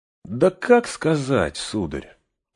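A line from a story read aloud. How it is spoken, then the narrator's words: Pensive reply. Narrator (Russian): задумчиво отвечал Сэм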